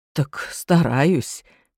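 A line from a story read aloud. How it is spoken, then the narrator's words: Quiet. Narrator (Russian): тихо проговорил Саша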